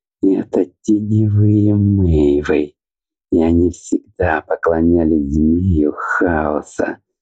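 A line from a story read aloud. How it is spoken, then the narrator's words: Through gritted teeth. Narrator (Russian): процедил сквозь зубы Аобран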